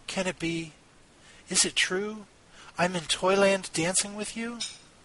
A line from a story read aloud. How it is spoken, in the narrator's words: Marie whispered to Nutcracker